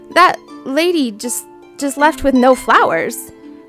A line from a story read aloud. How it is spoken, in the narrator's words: Stammered Sandra